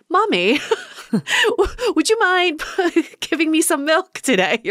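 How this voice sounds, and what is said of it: Put-on British accent, baby voice. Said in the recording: “is that your British accent coming out? ... I was a British baby.”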